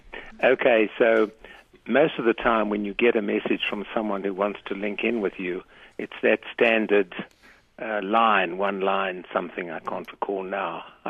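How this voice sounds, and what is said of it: South African accent. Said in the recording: “you have an accent that's just as good as Jan's ... It was born in Johannesburg a long time ago.”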